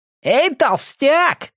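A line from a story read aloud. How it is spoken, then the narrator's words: Yelling. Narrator (Russian): завопил Клеом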